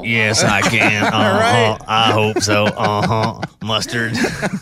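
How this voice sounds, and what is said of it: Billy Bob Thornton Sling Blade impression. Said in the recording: “For those that don't know, that's Sling Blade. Yeah. That was an excellent impression of Billy Bob Thornton.”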